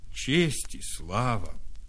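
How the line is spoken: Sighed. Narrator (Russian): вздохнул Кость

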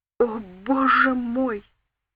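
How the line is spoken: Moaned. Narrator (Russian): простонала

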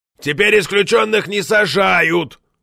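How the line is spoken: Loud bark into hearing aid. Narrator (Russian): гаркнул в слуховой аппарат Борозда

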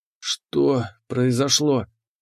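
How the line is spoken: Hoarse wheeze. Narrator (Russian): прохрипел я

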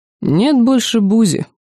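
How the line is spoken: Sad wry laugh. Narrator (Russian): грустно усмехнулся священник

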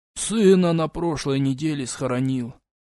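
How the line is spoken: Muffled, hollow reply. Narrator (Russian): глухо ответил Терпин

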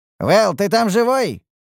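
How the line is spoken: Coughing shout. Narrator (Russian): крикнул я, кашляя из-за поднятой пыли

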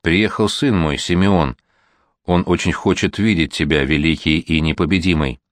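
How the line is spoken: Calm. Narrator (Russian): Иван спокойно сказал

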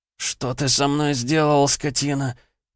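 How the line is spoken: Moaning. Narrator (Russian): простонал он

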